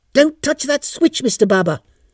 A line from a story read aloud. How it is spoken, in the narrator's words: barked Mrs